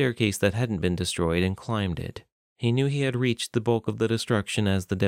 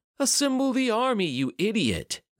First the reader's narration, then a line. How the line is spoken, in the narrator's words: Zion shouted